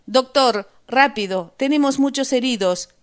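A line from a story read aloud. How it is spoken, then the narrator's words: Shouting woman, urgent. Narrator (Spanish): gritó la enfermera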